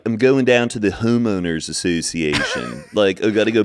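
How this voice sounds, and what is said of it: Put-on Baltimore accent. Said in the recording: “Kate Winslet like nails the Baltimore accent... The Baltimore accent”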